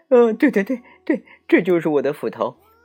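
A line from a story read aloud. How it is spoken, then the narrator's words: Gleeful, greedy. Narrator (Chinese): 贪心的樵夫乐得眉开眼笑，说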